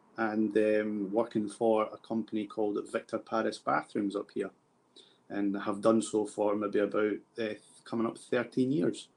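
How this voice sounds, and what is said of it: Edinburgh Scottish accent. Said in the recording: “your Edinburgh accent”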